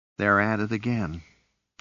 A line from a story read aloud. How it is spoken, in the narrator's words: he sighed to himself